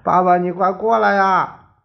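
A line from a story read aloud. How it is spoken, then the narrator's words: Children shouting. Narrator (Chinese): 两个孩子 对着宋凡平喊叫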